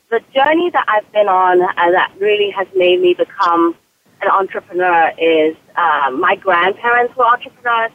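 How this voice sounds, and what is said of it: British accent. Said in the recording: “I also have a British accent, which throws people off.”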